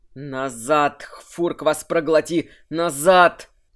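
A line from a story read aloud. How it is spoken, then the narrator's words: Growled. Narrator (Russian): прорычал Кирсан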